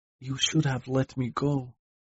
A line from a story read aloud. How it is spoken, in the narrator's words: she whispered